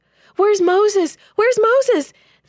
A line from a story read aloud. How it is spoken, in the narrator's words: the people wailed